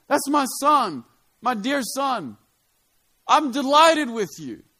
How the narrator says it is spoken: God shouts out

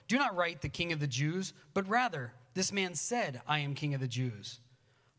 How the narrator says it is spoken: Pilate answered

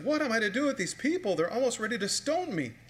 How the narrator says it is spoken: Moses cried out to the Lord and said

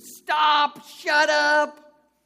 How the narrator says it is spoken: the woman next to me, who continued to scream

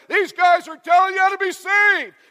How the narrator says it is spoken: She keeps following along, shouting to them and shouting at them and shouting around them

